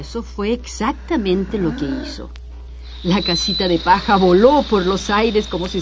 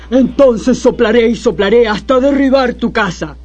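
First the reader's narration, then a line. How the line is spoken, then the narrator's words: Wolf growling. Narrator (Spanish): gruñó el lobo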